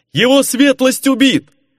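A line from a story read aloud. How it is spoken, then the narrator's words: Shouting. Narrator (Russian): заорал кто-то из гвардейцев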